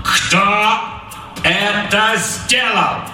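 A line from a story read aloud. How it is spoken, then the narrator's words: Loud, clipped words. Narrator (Russian): Громко чеканил капрал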